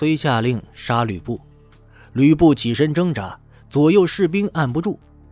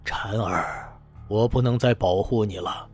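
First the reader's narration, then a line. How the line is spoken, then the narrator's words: Regretful inner sigh. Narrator (Chinese): 心中甚是遗憾，暗叹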